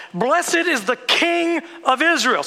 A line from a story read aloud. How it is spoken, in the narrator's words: They shouted